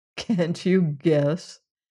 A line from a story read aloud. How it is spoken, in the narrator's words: answered with a bitter laugh